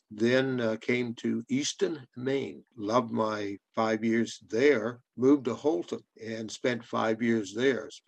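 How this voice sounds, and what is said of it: Canadian accent with Southern touches. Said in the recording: “a Canadian from Nova Scotia with an accent. ... I got a little South in my mouth. So I was pretty mongrel”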